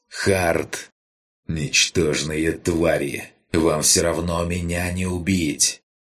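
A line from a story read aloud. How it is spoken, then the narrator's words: Growl. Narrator (Russian): прорычал вилл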